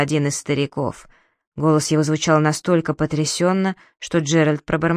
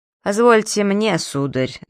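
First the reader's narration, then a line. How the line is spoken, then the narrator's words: Mocking, tsar. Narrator (Russian): насмешливо произнес царь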